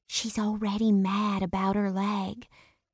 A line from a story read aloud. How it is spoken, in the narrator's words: she whispered